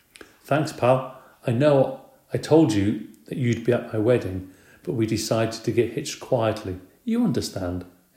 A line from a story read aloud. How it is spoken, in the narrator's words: he asked